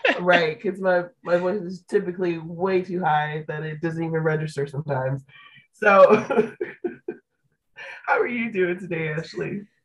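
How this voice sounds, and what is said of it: Hoarse, lower voice from illness. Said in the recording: “My voice is barely here, courtesy of preschool. I'm sick. ... You just got that Alicia Keys Beyonce voice going on.”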